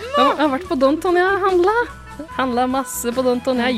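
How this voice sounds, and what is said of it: Put-on Porsgrunn dialect. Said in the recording (Norwegian): “jeg kan ta den på porsgrunnsdialekt”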